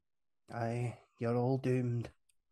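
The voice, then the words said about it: Put-on Scottish accent. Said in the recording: “I've done that in a Scottish accent”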